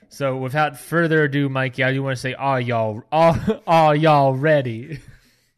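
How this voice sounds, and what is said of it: Put-on Southern drawl. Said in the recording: “I got a weird southern drawl there a little bit ... I'm just getting that southern draw ... It's just me doing a southern draw ... I'm getting a little bit of that southern drawl here and there”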